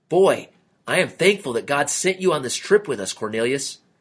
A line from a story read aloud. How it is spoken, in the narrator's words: he exclaimed